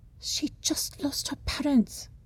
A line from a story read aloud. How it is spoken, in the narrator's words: whispers, shouts